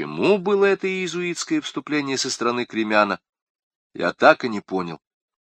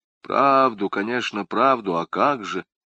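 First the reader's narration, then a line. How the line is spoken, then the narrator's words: Sepulchral voice. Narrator (Russian): каким-то замогильным голосом ответил лорд Кипанидзе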